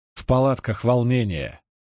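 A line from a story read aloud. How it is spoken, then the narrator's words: Level, even voice. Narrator (Russian): сказала она ровным голосом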